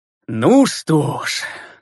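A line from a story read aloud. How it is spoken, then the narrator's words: Contented sigh. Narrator (Russian): сыто вздохнул лейтенант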